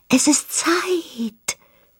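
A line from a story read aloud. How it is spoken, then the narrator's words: Rustling whisper, leaves. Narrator (German): wisperten die Blätter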